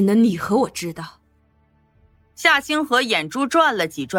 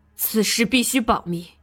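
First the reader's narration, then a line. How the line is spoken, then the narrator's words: Hushed voice. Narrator (Chinese): 刁有人压低声音说道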